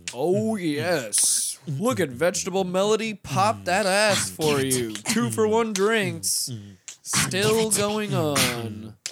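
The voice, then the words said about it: Strip club DJ voice. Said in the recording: “I can't do a strip club DJ voice.”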